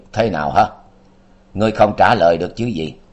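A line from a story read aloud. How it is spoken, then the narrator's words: Cold. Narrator (Vietnamese): Tâm ma lạnh lùng nói tiếp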